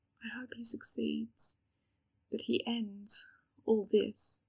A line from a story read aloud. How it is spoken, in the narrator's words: said Demelza softly